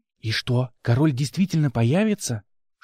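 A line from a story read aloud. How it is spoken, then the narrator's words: Whispered question. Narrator (Russian): Шепотом, несмотря на отсутствие соседей, спросила я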